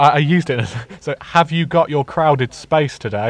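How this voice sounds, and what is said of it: Usual voice. Nothing is said of it.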